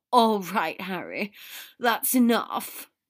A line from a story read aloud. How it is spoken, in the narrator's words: Draco gasped